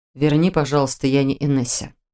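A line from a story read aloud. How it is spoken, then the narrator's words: Calm. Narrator (Russian): спокойно ответил Арс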